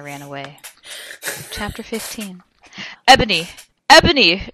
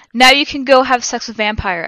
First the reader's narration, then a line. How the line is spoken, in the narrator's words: I shouted